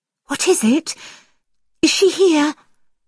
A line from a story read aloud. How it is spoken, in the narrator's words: asked anxiously